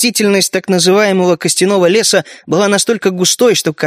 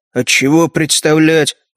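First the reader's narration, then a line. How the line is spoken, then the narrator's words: Grumbled. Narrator (Russian): буркнул Роб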